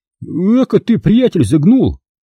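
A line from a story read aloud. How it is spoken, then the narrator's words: Timid indignation. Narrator (Russian): робко возмутился Микола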